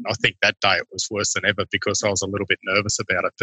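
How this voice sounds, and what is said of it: Non-North American accent. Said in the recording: “when I'm chatting to all of you people from North America, that I get a little self-conscious of the accent”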